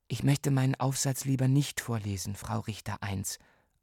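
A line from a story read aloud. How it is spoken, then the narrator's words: Quiet answer. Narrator (German): antwortete ich leise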